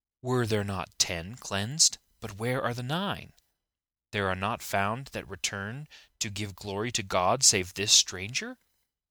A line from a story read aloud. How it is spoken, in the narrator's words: Pained over the lack of gratitude on the part of the 9, Jesus exclaimed